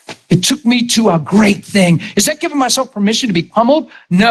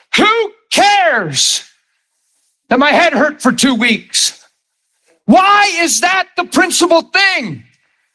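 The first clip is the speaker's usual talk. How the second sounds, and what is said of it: Raised, loud emphatic voice. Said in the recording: “I'm raising my voice on a purpose to stop everything else and make a point here.”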